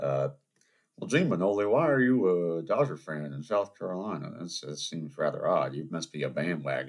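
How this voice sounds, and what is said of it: Usual voice. Nothing is said of it.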